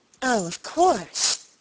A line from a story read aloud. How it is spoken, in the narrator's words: answered my lady bitterly